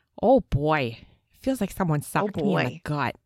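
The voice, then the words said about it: Minnesotan accent. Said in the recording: “Can you please say that in Minnesotan?”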